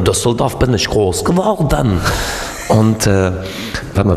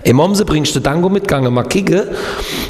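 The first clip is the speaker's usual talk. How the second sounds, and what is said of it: Put-on Baden regional dialect. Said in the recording (German): “wie geht nochmal Kehl am Rhein, wo ich gelebt habe?”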